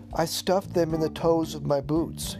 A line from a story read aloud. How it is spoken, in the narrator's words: said